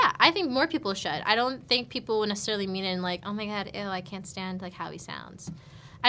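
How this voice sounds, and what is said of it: Usual voice. Nothing is said of it.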